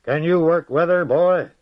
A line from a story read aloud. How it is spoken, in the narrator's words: asked him in a mighty voice